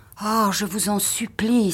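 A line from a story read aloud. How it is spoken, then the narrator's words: Exclaimed. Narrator (French): s'écria-t-elle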